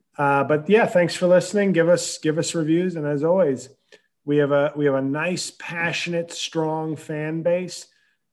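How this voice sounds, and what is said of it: Very hoarse voice. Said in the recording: “My voice is very hoarse... my voice is extra hoarse”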